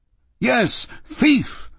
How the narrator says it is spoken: I roared

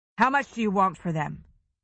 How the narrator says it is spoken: he asked, his voice flat

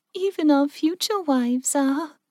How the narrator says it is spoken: Mindy giggled

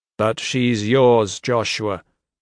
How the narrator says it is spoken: the maestro said flatly

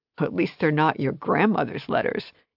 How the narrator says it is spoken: he said between laughs

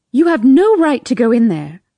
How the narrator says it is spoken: I hear Trish yell

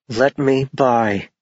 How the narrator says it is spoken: she said through clenched teeth

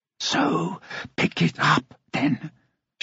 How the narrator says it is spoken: she whispered, and her voice echoed back

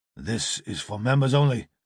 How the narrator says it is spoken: grunted the heavy

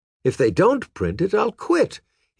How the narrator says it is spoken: he exclaimed

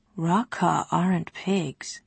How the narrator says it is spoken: he murmured

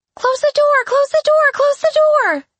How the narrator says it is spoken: she shrieked

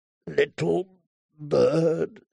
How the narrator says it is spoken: he said once more, his voice raw and harsh as steel on stone

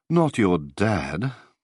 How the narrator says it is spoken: said wearily

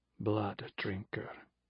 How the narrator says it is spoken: murmured Everard

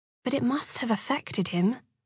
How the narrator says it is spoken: Alex said, gently

